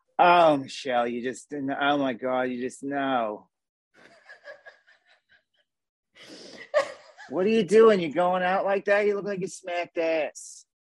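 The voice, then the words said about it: Jersey accent, disappointed motherly voice. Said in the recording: “working off my Jersey accent combined with like my own mother probably. And just disappointment.”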